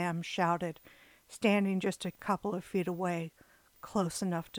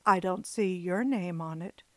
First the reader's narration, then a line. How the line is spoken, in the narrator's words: she replied in an even tone